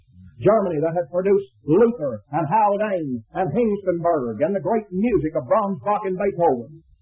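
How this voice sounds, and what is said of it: Texas accent. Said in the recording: “I say these German names with Texas accent.”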